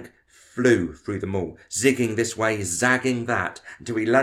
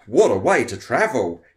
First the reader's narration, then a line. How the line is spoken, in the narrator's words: he exclaimed